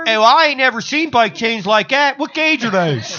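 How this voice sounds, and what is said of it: Put-on Baltimore accent. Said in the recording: “Your Baltimore accent?”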